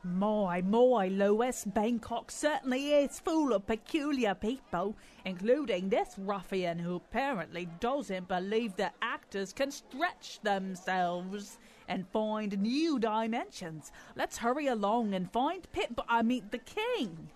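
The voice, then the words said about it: Fake-sounding put-on accent. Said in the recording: “speaking in that fake-sounding accent”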